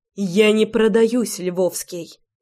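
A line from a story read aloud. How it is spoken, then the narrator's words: Defiant, through teeth. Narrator (Russian): Процедила, бросая открытый вызов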